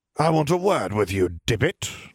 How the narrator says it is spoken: he spat

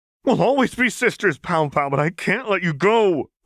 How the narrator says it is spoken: Vi cried

